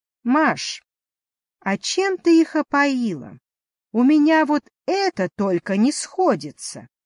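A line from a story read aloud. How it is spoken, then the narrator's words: Cheerful question. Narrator (Russian): весело спросила ведьма продавщицу пельменей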